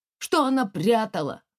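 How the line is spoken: Loud question. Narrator (Russian): громко спросил Сереж

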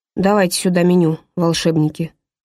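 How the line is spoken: Sighing. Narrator (Russian): вздохнул Грегори

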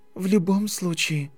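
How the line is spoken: Trembling voice. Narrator (Russian): дрожащим голосом продолжила Гермиона

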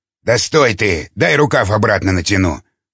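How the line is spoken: Grumbling. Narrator (Russian): проворчал Жуковский

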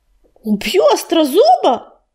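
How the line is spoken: Alarmed exclamation. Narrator (Russian): воскликнул ураган, вспомнив о гнилостном запахе смутной тени, которая промелькнула на вершине водопада

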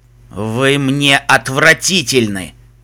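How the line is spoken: Clipped words through teeth. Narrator (Russian): Выделяя каждое слово сквозь зубы, процедил ночной пегас

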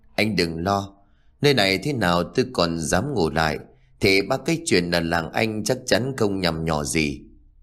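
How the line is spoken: Cold, sneering. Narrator (Vietnamese): Cương liền cười nhạt

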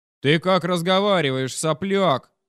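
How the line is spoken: Deep growl, father-in-law. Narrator (Russian): надавив на бас, рыкнул тесть

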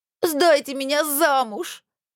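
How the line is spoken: Muffled sobbing. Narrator (Russian): рыдала Мильта, уткнувшись лицом в подлокотник кресла

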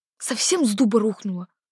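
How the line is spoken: Indignant hiss. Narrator (Russian): возмущенно зашипела Дарина

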